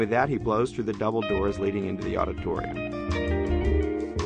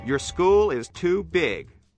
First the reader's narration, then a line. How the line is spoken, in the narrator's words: booms Maury